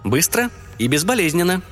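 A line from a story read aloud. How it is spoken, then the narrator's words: Cheerful chirping. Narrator (Russian): весело прощебетала мисс Фри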